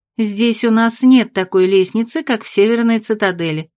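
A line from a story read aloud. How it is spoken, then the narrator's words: Calm explanation. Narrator (Russian): спокойно объяснила она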